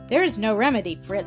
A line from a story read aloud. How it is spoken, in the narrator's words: said I